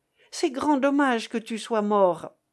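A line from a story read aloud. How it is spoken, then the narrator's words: Exclaiming. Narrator (French): s'écria-t-il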